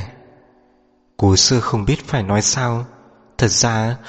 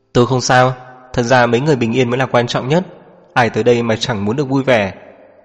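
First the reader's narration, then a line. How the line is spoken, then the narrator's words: Smiling. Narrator (Vietnamese): chị ta mỉm cười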